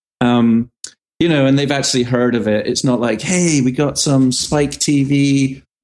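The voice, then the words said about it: British accent. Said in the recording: “My parents are British, hence my accent.”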